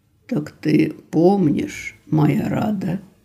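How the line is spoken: Lower, husky voice. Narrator (Russian): Его голос изменился, стал ниже, в нем появилась волнующая хрипотца

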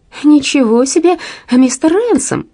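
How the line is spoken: Exclaiming. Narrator (Russian): воскликнула она

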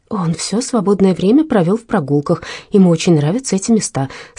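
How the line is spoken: Plain. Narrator (Russian): сказала Верина

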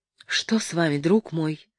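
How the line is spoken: Tender, anxious question. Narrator (Russian): спросила его Матильда ласково и тревожно

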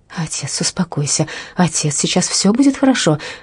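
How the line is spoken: Breathless gasping exclamation. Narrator (Russian): воскликнула Верина, задыхаясь, точно выплывший на поверхность ныряльщик

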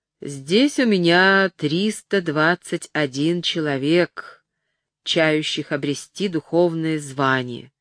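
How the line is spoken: Stern but not angry. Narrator (Russian): сказал, наконец, аббат Пирар строгим, но не злым голосом

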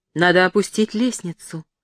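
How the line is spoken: Plain. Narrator (Russian): сказала Матильда

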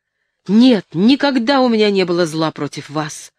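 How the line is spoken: Exclaimed. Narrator (Russian): воскликнул

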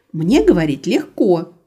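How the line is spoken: Snapping retort. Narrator (Russian): огрызнулась Рада, которая уже начала жалеть об этой встрече

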